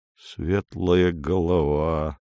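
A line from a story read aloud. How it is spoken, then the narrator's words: Mumble. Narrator (Russian): пробормотал Поль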